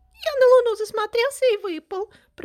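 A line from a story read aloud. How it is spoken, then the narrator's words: Weak squeaky little squirrel. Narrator (Russian): пропищал чуть живой бельчонок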